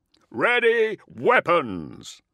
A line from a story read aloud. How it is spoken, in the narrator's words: Corvus bellowed over the deafening rumble of immense gears